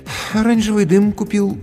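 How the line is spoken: Sighing. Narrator (Russian): вздохнул администратор

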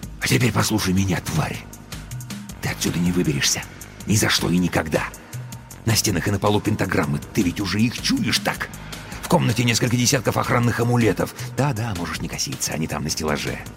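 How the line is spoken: Furious whisper. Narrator (Russian): с нескрываемой яростью прошептал

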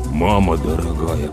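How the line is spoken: Muttered. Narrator (Russian): пробормотал Слава

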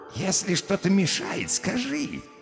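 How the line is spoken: Caring purr. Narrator (Russian): заботливо промурлыкал лысый

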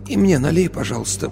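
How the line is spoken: Hoarse request. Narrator (Russian): попросила сипло

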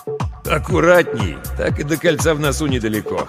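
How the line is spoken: Chuckling. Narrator (Russian): хохотнул Ермолов

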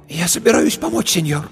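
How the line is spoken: Hoarse, excited voice. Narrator (Russian): Ее голос стал хриплым от волнения

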